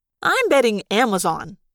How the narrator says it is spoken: Marco said brightly

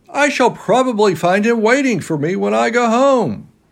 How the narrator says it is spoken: cried Yui

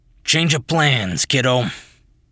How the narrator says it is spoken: he said, his voice raspy and unpleasant

